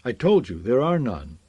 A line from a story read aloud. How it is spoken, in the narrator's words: Karth answered sharply